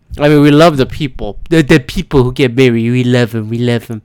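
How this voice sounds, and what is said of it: Imitates another person's voice. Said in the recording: “doing a Trump impression?”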